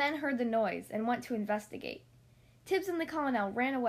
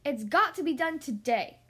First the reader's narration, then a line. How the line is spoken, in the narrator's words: she cried